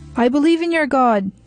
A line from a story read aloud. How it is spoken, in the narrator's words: he screamed desperately